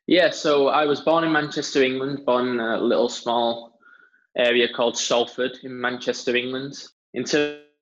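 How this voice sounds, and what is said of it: British English accent. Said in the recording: “I picked up on your accent ... you're from the UK”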